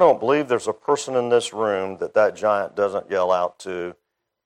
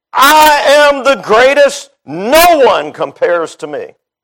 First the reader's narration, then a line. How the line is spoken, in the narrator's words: This giant called pride always yells out on the battlefield